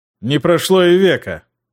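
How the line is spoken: Snort. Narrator (Russian): хмыкнул

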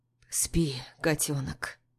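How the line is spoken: Sleepy mumble. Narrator (Russian): бормочет он, не открывая глаз

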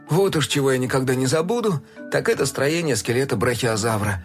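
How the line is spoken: Rueful sigh. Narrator (Russian): вздохнул он, ведь именно сборка этого скелета его так долго мучил отец

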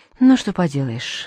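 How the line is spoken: Sighing. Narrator (Russian): вздохнула Апраксина

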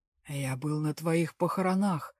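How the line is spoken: Hoarse. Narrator (Russian): хриплым голосом произнес Адриан

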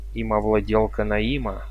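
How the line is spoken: Anxious whisper. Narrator (Russian): беспокойно шепнул Вагура

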